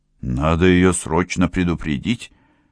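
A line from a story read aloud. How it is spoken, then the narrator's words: Muttering through teeth. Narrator (Russian): пробормотал сквозь зубы Лежандр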